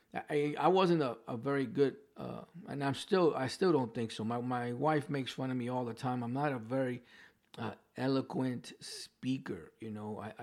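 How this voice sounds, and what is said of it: New York accent. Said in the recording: “I still have my New York accent. There's words that I can't pronounce properly.”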